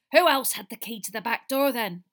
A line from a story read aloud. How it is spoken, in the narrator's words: barked the cook